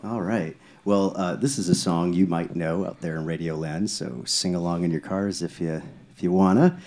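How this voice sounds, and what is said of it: Polished radio announcer voice. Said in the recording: “you have a really good radio voice.”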